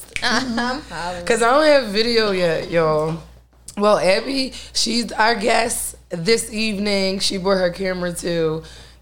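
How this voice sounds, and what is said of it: Raspy voice. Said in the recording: “y'all know my raspy-ass voice”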